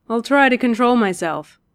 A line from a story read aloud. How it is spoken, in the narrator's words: Dick said dryly